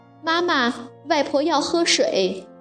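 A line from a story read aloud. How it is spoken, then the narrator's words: Child calling out. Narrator (Chinese): 小乐立刻跑去叫妈妈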